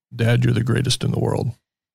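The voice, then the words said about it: Radio announcer voice. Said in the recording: “a trained radio voice... Let's try your radio voice.”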